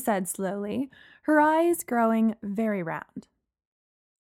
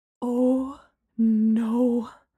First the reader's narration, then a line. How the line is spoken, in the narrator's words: Gemma breathed